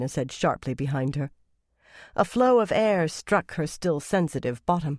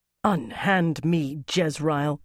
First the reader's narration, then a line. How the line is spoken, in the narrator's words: Katarina snarled